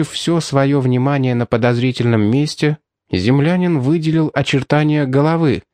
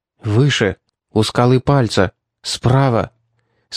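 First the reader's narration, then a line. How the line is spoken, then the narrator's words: Near whisper. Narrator (Russian): сказал Дэйн почти шепотом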